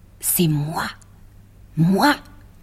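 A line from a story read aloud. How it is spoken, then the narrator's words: Cat murmuring. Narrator (French): murmura le chat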